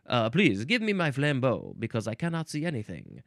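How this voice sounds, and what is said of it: Bad put-on French accent. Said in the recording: “This is a terrible French accent... Yeah, this is a terrible French.”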